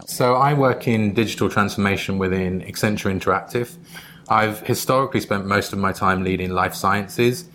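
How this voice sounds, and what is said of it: Non-New York accent. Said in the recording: “you might realize I'm not a native New Yorker from my accent”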